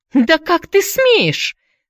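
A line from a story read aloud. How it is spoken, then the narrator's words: Shrieking lady. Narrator (Russian): завизжала леди Морган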